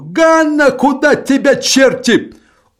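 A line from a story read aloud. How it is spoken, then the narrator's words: Shout. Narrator (Russian): крикнул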